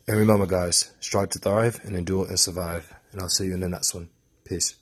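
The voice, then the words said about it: Put-on British accent. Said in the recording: “in my British accent”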